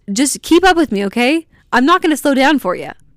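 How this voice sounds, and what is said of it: Very fast energetic speech. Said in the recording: “I'm talking so fast.”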